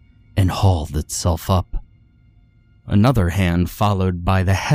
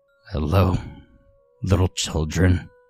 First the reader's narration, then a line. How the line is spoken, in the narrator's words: croaked out almost as if in pain